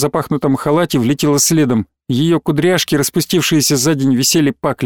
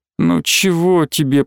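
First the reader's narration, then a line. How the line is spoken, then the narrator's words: Moaning. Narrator (Russian): простонала Алина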